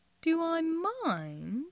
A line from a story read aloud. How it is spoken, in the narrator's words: Jim purrs, and then violent, furious